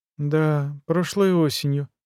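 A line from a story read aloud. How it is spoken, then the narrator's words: Mumbled. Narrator (Russian): пробормотал Везин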